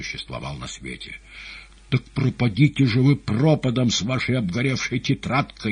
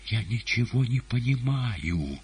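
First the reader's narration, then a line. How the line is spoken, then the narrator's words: Quiet. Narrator (Russian): тихо заговорила Маргарита Николаевна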